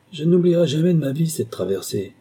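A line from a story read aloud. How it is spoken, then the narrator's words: Sighing. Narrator (French): déclara Scrimshaw en soupirant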